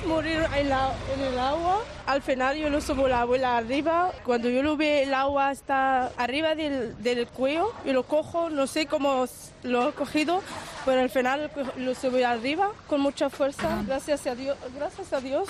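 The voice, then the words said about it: Moroccan-accented, halting Spanish. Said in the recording (Spanish): “con ese acento marroquí, con ese español todavía que le costaba”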